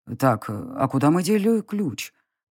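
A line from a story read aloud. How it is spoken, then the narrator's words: Muttered to himself. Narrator (Russian): пробормотал он себе под нос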